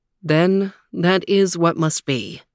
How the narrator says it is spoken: The prince sighed and said

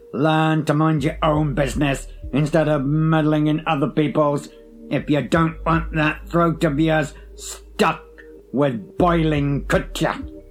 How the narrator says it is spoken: he thundered in reply

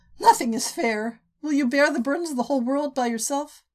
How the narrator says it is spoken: Prisca huffed her own laugh, startled

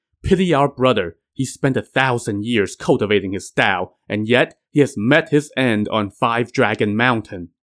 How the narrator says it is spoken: Yang Sen said angrily

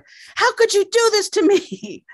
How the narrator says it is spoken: he shouts at her

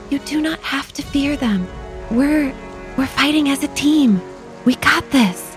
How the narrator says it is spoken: Lyra sees Ikmer cowering in fear, she whispers to him

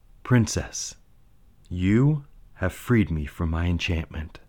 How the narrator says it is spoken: the prince said tenderly

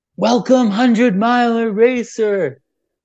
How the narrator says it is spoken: this guy at the aid station yelled through a pylon

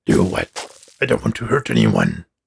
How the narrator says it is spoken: growled

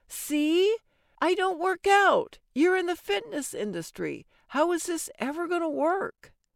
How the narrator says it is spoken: halfway through the third drink, practically yelling

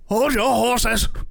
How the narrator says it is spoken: shouted the innkeeper back at him

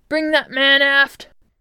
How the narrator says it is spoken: shouted the captain

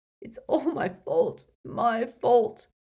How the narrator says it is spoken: he sobbed

